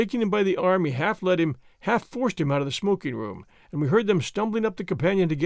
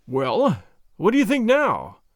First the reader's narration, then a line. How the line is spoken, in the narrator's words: I gasped